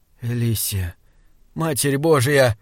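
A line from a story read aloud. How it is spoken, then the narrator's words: Hoarse voice. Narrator (Russian): хриплым голосом сказал Саймон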